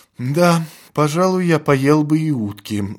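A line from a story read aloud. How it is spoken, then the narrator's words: Sigh. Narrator (Russian): вздохнул товарищ прокурора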